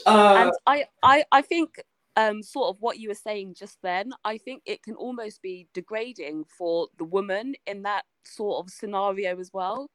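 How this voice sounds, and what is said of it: English accent. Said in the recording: “the accent thing. Tell him to come to England. We all sound like this.”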